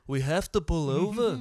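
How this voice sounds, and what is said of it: Imitates another person's voice. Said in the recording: “That's my impression... that's a good fucking impression”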